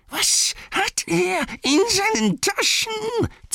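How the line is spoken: Hiss. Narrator (German): zischte es hinter ihm her

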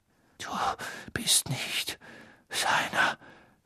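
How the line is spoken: Whispering. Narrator (German): flüsterte Crouch

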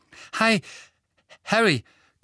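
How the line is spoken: Panting. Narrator (German): keuchte er

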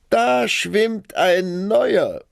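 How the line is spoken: Small child calling. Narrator (German): das Kleinste rief

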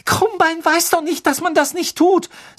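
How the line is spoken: Trembling voice. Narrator (German): sagte Hermine mit zitternder Stimme

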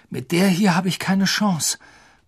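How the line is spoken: Panting. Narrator (German): keuchte Harry

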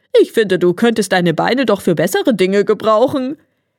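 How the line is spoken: Laughed, hare. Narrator (German): lachte der Hase

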